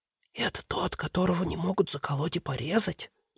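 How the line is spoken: Boy's whisper. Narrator (Russian): шепот одного из мальчишек

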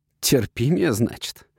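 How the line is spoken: Mock growl. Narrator (Russian): притворно рыкнул

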